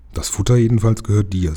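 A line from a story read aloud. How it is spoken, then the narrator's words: Plain. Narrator (German): sagte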